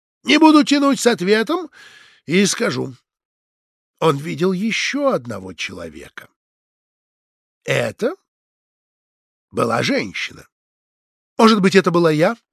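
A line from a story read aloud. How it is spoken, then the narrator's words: Plain. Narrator (Russian): спросила Людмила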